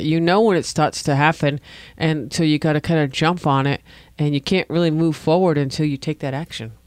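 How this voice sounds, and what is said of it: Rhode Island accent. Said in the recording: “I have a Rhode Island accent.”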